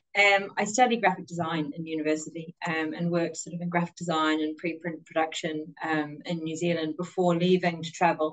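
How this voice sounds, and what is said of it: New Zealand accent. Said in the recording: “I'm obviously from New Zealand. You can tell by my accent there.”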